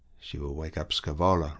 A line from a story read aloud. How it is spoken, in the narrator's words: remarked Arlette to Raoul in a conversational tone